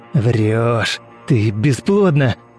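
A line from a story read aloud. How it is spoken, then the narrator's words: Growled. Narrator (Russian): Прорычал он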